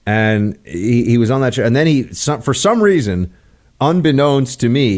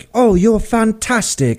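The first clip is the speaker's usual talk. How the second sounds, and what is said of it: Mock British accent. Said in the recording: “I've got a British accent.”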